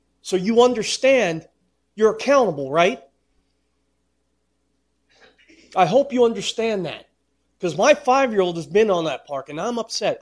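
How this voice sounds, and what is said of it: Raised, upset voice. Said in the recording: “I'm sorry I'm raising my voice.”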